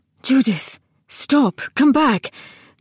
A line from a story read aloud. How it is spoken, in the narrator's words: Crown was saying urgently